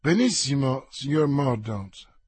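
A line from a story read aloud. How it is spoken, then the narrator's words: Plain. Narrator (Italian): disse il ministro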